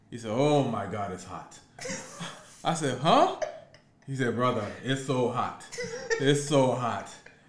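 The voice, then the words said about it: Fake African accent. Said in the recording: “if you wonder why I'm talking with a fake accent, my dude was like, I'm from Africa”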